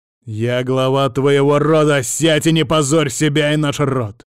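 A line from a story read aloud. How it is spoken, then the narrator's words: Harsh bark. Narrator (Russian): рявкнул Андрей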